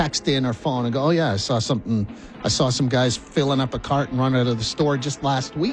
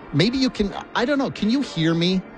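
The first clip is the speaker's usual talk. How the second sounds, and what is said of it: Yelling. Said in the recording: “I'm yelling right now”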